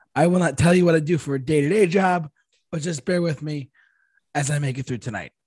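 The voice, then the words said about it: Hoarse, strained voice. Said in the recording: “forgive me, guys, my voice is shot”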